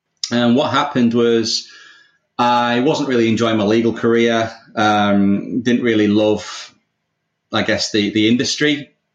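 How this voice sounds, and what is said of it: English accent. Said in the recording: “obviously you can tell from my accent, I'm English”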